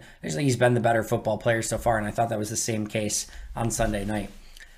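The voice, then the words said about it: Hoarse, tired, fading voice. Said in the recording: “I am losing my voice ... I am dead tired”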